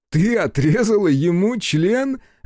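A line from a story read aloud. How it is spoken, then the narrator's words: Loud roaring laughter. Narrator (Russian): расхохотался Хицу на весь лес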